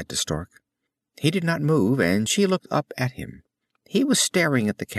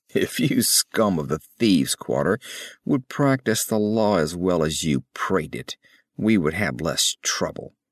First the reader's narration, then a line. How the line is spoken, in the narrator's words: growled the captain